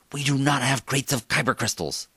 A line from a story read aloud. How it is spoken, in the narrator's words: Felina hissed